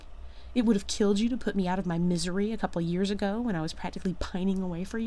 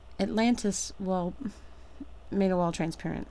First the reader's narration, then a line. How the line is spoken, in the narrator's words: Shepard mumbles